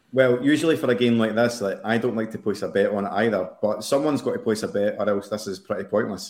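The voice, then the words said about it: Scottish accent. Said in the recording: “is Scottish, if you couldn't tell from his accent.”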